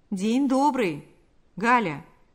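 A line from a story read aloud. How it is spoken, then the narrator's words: Plain. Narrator (Russian): сказал он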